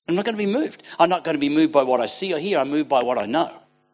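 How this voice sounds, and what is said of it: Australian accent. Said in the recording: “people get around us because of our accent. They go, hey, this is an Aussie. ... We have an accent.”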